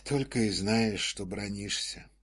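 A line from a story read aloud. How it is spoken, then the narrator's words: Sighing inspector. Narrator (Russian): вздохнул инспектор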